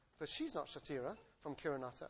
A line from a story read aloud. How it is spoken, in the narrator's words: I said